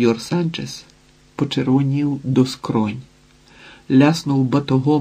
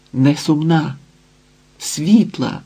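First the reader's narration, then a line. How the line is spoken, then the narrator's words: Exclaimed. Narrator (Ukrainian): вигукнула Ізідора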